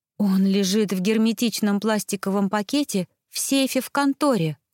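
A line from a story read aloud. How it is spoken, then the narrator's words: Breathy exhale. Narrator (Russian): выдохнула Вэл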